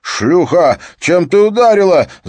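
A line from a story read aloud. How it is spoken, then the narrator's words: Yelled. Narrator (Russian): заорал Стёп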